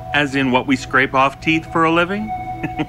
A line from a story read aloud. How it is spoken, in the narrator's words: He chuckled harder